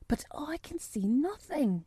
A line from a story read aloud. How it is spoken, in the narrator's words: he whispered